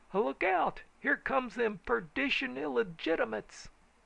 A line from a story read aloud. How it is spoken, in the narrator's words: Everyone yelled